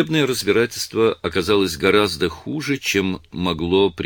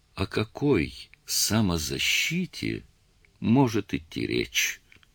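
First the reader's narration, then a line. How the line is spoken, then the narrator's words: Near whisper. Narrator (Russian): окружной прокурор, обращаясь к присяжным, сказал почти шепотом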